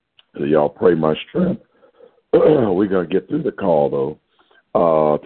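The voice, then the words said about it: Hoarse voice. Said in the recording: “My voice is getting hoarse ... I've been doing a lot of talking”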